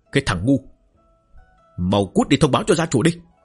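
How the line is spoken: Shout. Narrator (Vietnamese): Ông quát

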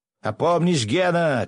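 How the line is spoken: Shouted. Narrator (Russian): крикнул князь Лазарев

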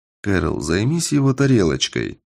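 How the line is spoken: Quiet request. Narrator (Russian): попросил я тихо

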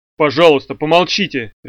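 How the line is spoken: Barked. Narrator (Russian): рявкнул Вульф

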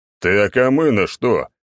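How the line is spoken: Growl. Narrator (Russian): рыкнул Черномор

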